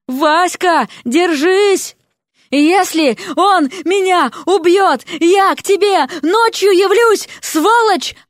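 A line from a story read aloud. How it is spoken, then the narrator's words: Yelling. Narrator (Russian): орала лягушка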